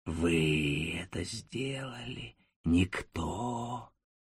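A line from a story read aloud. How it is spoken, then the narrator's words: Through teeth, rolling Italian accent. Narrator (Russian): Самарио, приземистый и сбитый как кулак, сквозь зубы говорил с итальянским раскатом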